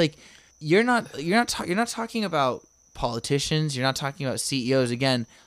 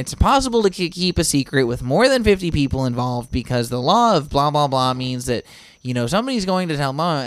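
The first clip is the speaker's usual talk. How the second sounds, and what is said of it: Mock know-it-all debunker voice. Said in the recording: “doing my debunker voice”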